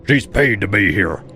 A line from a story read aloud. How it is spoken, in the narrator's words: the tallest one barked